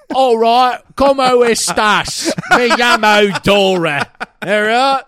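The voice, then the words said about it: Spanish accent over British voice. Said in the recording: “You're good at Spanish and accents ... Doing a Spanish accent in a British accent.”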